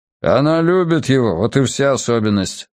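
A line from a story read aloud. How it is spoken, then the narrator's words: Grumbled. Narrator (Russian): буркнул Хадсон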